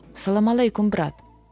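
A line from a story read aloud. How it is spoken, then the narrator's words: Plain. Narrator (Russian): сказал Асхат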